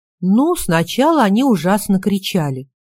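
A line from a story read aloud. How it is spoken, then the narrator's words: Plain. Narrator (Russian): сказала Катя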